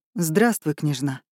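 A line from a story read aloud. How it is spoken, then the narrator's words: Muffled voice. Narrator (Russian): сказал глухим голосом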